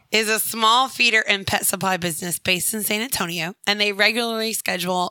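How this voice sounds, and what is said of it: Rough, sick-sounding voice. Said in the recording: “My voice is like, I'm not coughing anymore ... God, I sound awful.”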